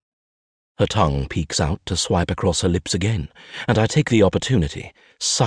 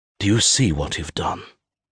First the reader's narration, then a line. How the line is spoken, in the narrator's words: I rasp